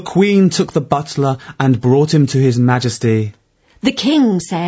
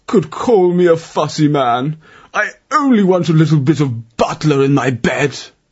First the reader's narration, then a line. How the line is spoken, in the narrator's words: he whimpered